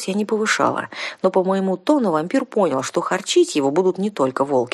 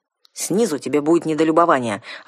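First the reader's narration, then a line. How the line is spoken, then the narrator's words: Snapping retort. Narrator (Russian): огрызнулся Ралар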